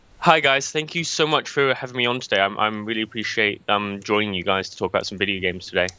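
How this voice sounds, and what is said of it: English accent. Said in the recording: “coming from England ... Please talk to us with your uh, wonderful accent”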